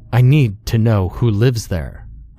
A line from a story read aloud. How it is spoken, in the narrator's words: I said, raising my voice